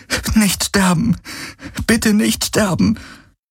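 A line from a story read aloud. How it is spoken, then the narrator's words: Repeated pleading. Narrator (German): flehte sie immer wieder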